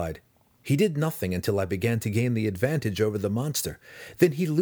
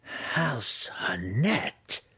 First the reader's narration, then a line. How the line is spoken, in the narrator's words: Matron Malice whispered